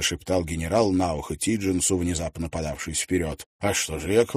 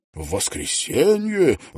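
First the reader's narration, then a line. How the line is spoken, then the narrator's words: General's near-despairing exclamation. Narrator (Russian): воскликнул генерал, и в голосе его послышалось чуть ли не отчаяние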